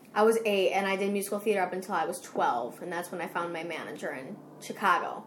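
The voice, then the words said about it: Chicago accent. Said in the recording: “I am from Chicago. Everybody makes fun of my accent.”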